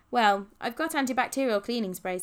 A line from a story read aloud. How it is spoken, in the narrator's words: said Rachel